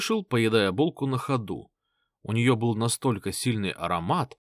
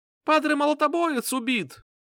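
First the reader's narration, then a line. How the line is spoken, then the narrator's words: Thin piercing shout. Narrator (Russian): кричал он тонким пронзительным голосом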